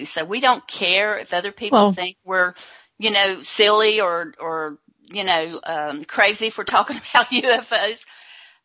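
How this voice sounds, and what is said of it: Southern American accent. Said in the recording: “Maybe it's because I'm Southern ... It's the accent, Nancy. It's the accent.”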